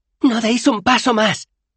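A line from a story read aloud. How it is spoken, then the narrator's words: Shouted. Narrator (Spanish): gritó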